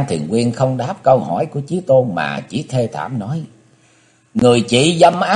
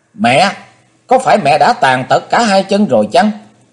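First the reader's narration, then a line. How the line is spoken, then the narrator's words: Sudden shout. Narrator (Vietnamese): Chí Tôn bỗng hét lên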